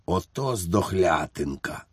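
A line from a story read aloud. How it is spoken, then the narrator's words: Whispered. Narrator (Ukrainian): він прошепотів фельдфебелів Іванікові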